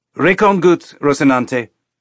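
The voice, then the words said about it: Put-on Ceres station accent. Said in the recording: “The accent was pure Ceres station.”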